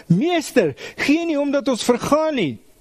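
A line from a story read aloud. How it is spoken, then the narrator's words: Panicked shouting. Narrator (Afrikaans): In paniek skree hulle vir Jesus wakker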